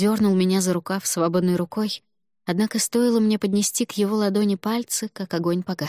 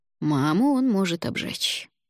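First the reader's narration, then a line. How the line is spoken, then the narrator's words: Soft. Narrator (Russian): мягко сказал Алвар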